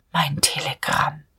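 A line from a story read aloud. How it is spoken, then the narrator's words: Barely audible inner murmur. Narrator (German): Innerlich in so tiefer Seele, dass er es selbst kaum hörte, murmelte Diederich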